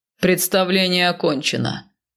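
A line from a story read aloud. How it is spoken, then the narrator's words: Loud growl, northerner. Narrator (Russian): громко рыкнул мой северянин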